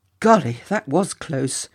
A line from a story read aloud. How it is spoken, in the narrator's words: gasped Jinty